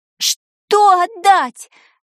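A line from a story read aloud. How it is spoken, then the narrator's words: Girl's horrified, near-tearful cry. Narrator (Russian): чуть не плача от омерзения и ужаса крикнула девочка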